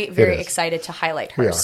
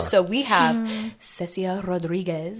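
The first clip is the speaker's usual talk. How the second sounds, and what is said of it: Put-on accent with rolled R's. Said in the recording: “Did you like my accent? ... That was perfect. Those R's were just”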